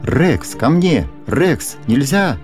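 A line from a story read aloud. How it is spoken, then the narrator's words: Shout. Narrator (Russian): закричал хозяин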